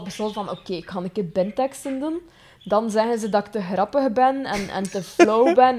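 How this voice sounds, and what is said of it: West Flemish accent. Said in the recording (Dutch): “dat ik een West-Vlaams accent heb. Ah, sommige mensen vinden het dan zalig, mijn West-Vlaams accent.”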